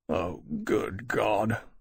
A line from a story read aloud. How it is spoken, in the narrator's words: Lawrence said with a groan